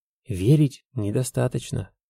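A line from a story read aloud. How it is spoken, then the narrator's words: Whisper. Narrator (Russian): шепнул Неанатилока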